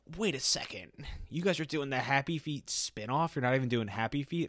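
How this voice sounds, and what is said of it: Imitates another person's voice. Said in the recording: “That was a pretty good impression... she doesn't sound like that.”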